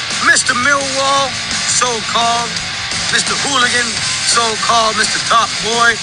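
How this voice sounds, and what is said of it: English accent. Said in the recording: “He speaks with an English accent.”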